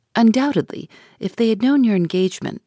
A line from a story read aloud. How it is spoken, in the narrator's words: said she